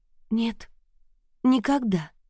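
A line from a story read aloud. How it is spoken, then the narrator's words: Weak voice. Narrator (Russian): ответила я слабым голосом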